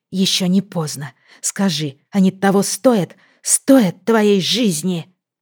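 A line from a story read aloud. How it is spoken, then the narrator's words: Furious hissing. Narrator (Russian): Она шипела на него, как разъяренная кошка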